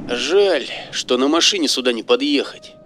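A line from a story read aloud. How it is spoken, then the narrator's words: Sigh. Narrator (Russian): вздохнул Серега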